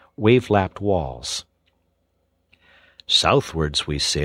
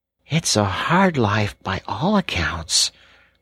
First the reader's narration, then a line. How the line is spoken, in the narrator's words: murmured the rat, sunk in deep thought